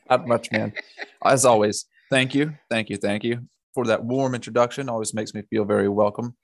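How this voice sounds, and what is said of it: Smooth Southern US accent. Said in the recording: “the smooth talking southern gentleman”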